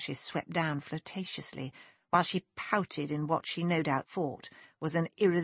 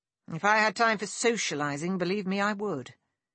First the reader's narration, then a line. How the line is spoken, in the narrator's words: he said curtly